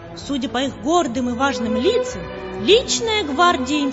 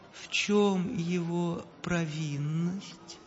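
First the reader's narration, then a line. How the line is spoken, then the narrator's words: Gentle question. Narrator (Russian): ласково спросил император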